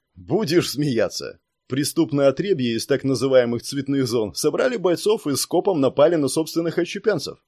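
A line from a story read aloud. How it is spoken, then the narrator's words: Laughing. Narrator (Russian): рассмеялся Жукс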